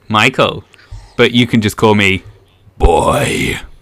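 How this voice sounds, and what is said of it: Imitates another person's voice. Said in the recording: “That was a really good impression.”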